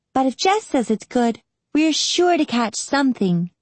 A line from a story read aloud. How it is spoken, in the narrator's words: replied Rinny happily